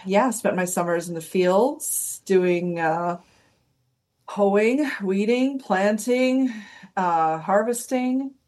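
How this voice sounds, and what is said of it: American Midwestern accent. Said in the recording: “as you might be able to tell from my accent, I'm from the United States. I grew up in the Midwest, so in Wisconsin ... So you might hear a Canadian accent come out once in a while.”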